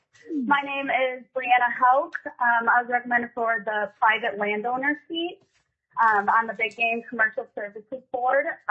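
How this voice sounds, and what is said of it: Hoarse voice. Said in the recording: “I am fighting the flu, so if I'm a little hoarse, that's why.”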